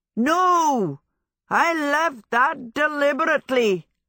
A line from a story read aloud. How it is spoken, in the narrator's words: Hal bellowed